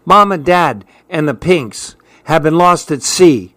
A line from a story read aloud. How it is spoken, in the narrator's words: she cried out